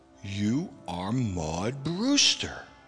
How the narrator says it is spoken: I said slowly and with certainty, almost as though I were charging her with a crime

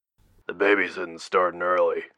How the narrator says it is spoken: Wolfgang grumbled over the comm line

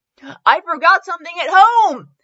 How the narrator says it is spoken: shouted

